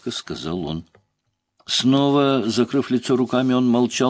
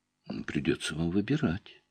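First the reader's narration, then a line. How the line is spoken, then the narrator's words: Calm firm doctor. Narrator (Russian): спокойно, но твердо ответил доктор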